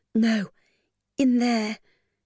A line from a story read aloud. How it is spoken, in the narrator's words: Lily protested in a weak voice